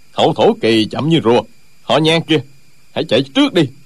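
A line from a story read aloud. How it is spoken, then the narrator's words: Angry. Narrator (Vietnamese): Một trong ba người đang giao đấu tức giận nói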